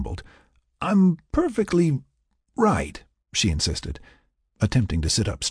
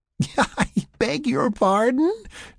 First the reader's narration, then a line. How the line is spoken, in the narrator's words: She giggled again, a bit louder